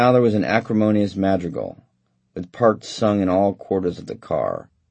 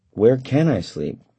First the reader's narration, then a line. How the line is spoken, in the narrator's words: asked quietly